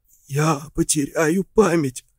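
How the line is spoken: Hoarse mutter. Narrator (Russian): хрипло пробормотал

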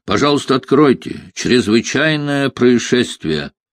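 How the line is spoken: Muffled voice through door. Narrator (Russian): Из-за двери глухо донесся голос Ренье

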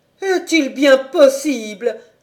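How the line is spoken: Moan. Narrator (French): gémit-elle

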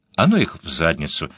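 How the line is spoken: Polite tone. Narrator (Russian): ответила все тем же учтивым тоном

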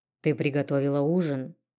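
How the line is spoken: Hoarse question. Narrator (Russian): хрипло спросил волк

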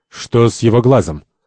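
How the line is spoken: Cold, devil. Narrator (Russian): Дьявол холодно

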